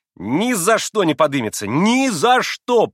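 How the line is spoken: Triumphant, proud shout. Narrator (Russian): победоносно и справедливо гордясь прокричал Коля

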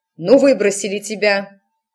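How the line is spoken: Barking, harsh. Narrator (Russian): рявкнула матушка

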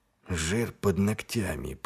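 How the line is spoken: Muttered. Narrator (Russian): пробормотал Ваймс

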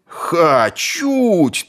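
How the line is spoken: Crowd yelling all around. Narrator (Russian): тут же завопили со всех сторон

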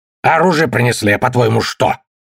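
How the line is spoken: Irritated. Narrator (Russian): раздраженно сказал Джет фермер

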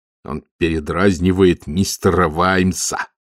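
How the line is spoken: Through gritted teeth. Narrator (Russian): сказал Маркоу сквозь зубы

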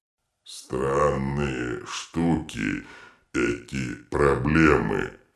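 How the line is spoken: Thoughtful drawl. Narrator (Russian): задумчиво протянул детрит

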